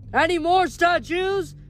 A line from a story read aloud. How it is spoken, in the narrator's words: The ghoul shouted to the crowd